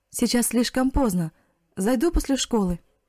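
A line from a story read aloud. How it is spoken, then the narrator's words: Shout. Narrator (Russian): крикнула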